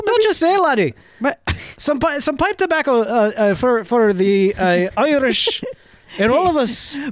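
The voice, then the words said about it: Attempted Irish accent. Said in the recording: “I'll work on that accent.”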